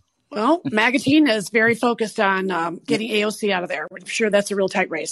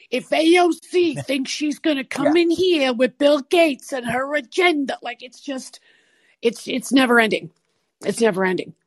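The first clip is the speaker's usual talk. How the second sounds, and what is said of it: Put-on Brooklyn accent. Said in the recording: “that was a good Brooklyn accent you had there for a second”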